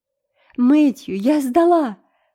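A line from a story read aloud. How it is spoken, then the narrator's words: Exclamation. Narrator (Russian): воскликнула Энн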